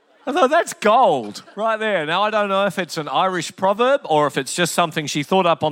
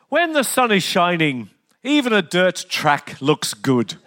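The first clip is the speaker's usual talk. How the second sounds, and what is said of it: Imitated Irish accent. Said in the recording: “sounded stunning in an Irish accent, and I'll do my very best to emulate it”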